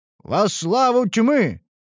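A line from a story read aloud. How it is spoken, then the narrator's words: Barked by fanatics. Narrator (Russian): рявкнули фанатики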